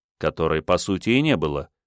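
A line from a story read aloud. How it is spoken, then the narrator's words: Smirking grunt. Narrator (Russian): хмыкнул я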